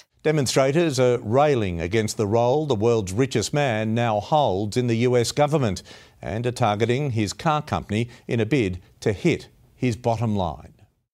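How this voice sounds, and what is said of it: Australian accent. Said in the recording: “Listen to this broadcaster's accent. ... He's Australian, mate.”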